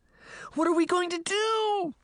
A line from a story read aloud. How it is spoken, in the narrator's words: Daphne cried